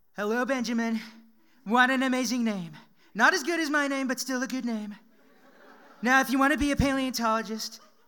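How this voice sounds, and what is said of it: Imitates another person's voice. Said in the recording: “accent with my Donald Trump accent ... add a few Donald Trumpisms”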